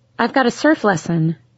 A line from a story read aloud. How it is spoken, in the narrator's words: I said automatically